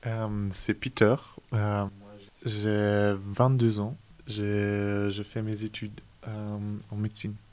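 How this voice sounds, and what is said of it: French with a foreign, English-like accent. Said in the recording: “tu as un accent... tu avais plus un accent anglais qu'allemand”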